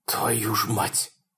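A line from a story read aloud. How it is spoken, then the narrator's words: Forced out, strained. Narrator (Russian): выдавил Фрэнк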